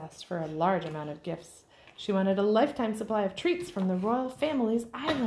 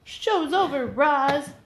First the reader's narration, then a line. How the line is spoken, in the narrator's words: shouted Streaky